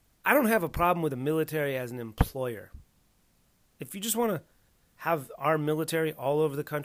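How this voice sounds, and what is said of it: Usual voice. Nothing is said of it.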